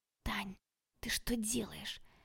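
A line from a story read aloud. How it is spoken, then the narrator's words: Whispered. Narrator (Russian): прошептала Женька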